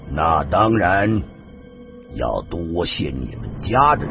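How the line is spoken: Slow, hesitant. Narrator (Chinese): 过了很久，他才缓缓的说道

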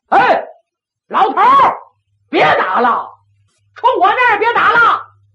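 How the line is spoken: Calling out. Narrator (Chinese): 胡大海 冲里边喊

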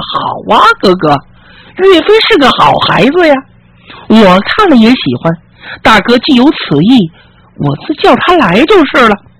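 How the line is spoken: Laughing. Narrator (Chinese): 笑了

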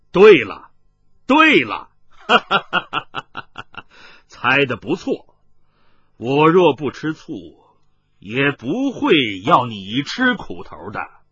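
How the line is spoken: Stranger laughing loudly. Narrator (Chinese): 麻衣客大笑道

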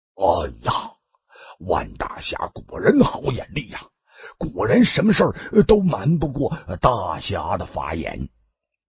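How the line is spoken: Laughing. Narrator (Chinese): 他是边笑边

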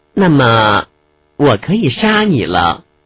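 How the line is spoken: Girl sighing softly. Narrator (Chinese): 小姑娘叹了口气，柔声说

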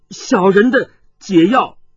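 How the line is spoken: Loud. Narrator (Chinese): 沈杏白却大声的说道

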